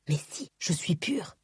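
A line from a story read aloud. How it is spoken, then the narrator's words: Whisper while grunting, climbing. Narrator (French): chuchota Lift, qui grimpait à grand renfort de grognements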